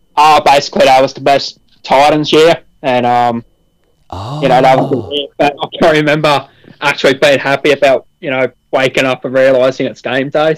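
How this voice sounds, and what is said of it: Slight accent, some words slurred. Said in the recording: “do you have a slight accent? ... some particular words fall off the tongue a bit, I guess, sloppier than others ... A lot of people think I'm Irish or Scottish”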